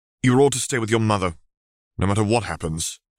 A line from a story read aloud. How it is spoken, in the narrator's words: Harry said firmly